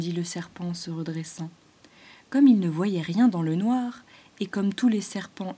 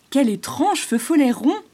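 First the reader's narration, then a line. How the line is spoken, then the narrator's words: Exclamation. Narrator (French): s'écria Roche-colombe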